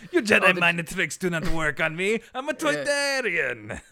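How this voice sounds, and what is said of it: Impression of Watto from Star Wars. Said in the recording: “that racist caricature from Star Wars Episode One? ... Watteau ... I don't even like you doing that voice.”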